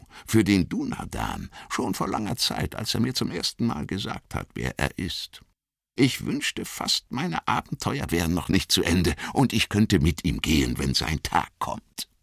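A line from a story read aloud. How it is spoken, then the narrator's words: Whisper. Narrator (German): flüsterte er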